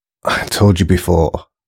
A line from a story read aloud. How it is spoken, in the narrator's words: muttered Alex